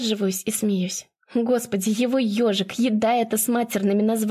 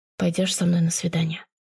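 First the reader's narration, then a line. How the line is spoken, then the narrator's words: Sad wry smirk. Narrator (Russian): Грустно усмехаюсь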